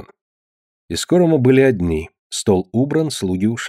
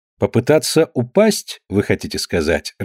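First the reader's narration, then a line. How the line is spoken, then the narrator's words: Laughing. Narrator (Russian): рассмеялся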